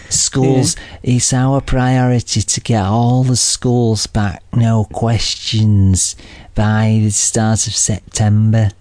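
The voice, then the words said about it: Northern English accent straining to sound posh. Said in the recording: “he tries to sort of cover up that Hull type Scarborough type accent by trying to sound posh, but you can still tell sometimes ... you can sort of tell that he's from the north of England”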